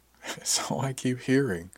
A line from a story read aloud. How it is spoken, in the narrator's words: I said with a chuckle